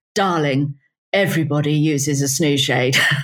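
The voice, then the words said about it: Pretentious posh British accent. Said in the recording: “a pretentious stereotypical accent of a pretentious British”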